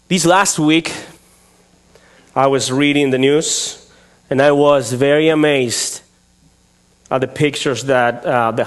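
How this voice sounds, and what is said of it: Speaks with a noticeable accent. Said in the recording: “beyond my accent”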